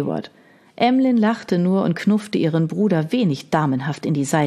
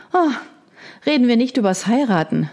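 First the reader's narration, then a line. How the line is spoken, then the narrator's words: Sighing. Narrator (German): seufzte Margaret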